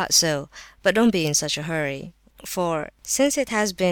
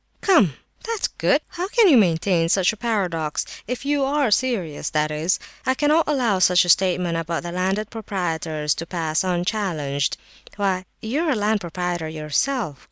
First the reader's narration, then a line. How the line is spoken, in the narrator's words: cried Prince S